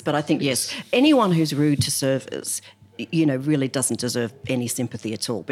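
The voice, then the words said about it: Slight non-English accent. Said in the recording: “My family, my husband and children are English, and I'm clearly not. ... There's a hint of an accent, huh?”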